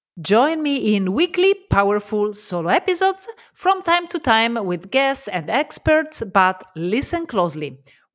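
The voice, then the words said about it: Italian accent. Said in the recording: “I'm Italian, so love my accent”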